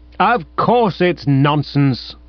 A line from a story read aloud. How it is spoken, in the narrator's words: I thundered